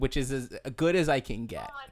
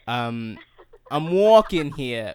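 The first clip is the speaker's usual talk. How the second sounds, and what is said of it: Very bad put-on New York accent. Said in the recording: “My accents are very bad ... New York accent ... that's so bad ... one of the worst New York accents I've ever heard”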